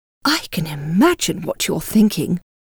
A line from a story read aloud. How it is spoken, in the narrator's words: Darcy and whispered